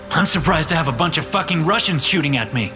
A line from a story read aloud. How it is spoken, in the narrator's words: I shout